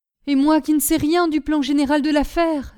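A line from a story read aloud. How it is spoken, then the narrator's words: Exclaiming. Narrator (French): s'écria Laurence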